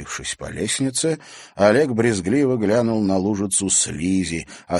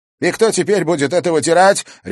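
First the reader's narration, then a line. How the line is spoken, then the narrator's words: Barked. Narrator (Russian): рявкнул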